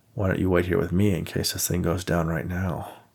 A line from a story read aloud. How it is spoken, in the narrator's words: Nate said to himself in a low voice